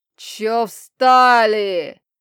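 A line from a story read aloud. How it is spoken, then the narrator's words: Loud bark. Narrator (Russian): гаркнул магистр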